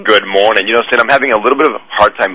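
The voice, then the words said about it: Smooth, resonant radio voice. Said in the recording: “you have such a radio voice”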